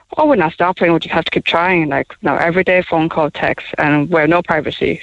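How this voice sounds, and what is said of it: Taiwanese-accented English. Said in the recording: “Accent, and people know. ... We're from Taiwan. I'm from Taiwan.”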